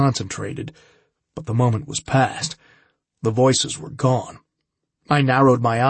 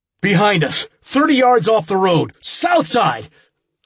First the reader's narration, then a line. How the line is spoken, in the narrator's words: I shouted